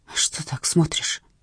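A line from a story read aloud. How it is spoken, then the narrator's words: Muttering. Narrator (Russian): пробормотала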